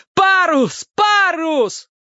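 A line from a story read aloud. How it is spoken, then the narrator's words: Furious yelling. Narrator (Russian): третий яростно орал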